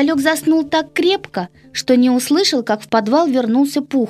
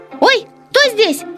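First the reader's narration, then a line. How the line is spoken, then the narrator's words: Startled squeal. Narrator (Russian): завопил хомяк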